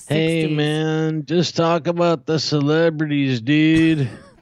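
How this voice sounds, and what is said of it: 1960s surfer dude voice. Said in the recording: “talk like a surfer, bro. From the 60s.”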